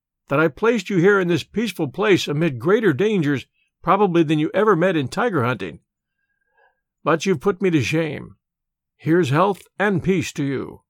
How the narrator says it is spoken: he laughed

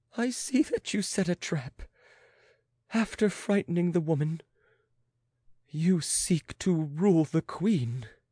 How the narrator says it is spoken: moaned the queen

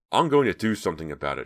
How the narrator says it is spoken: she blurted, not realizing she was talking aloud

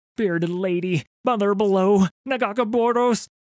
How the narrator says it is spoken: he sobbed

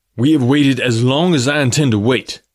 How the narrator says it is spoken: he said roughly

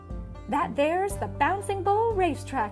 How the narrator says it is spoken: exclaimed Starla

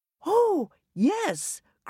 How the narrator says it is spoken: cried Mrs

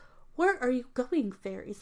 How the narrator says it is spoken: asked the fox

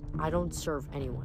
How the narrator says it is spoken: Nico muttered

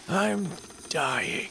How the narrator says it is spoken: the man said, his voice barely audible

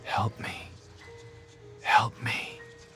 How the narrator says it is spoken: The skulls were so close to hers, she could almost feel them whispering

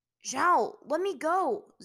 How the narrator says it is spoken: Zuko suddenly yelled, trying to wrestle himself free of Zhao's grip

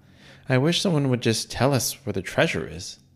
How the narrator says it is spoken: sighed Leah

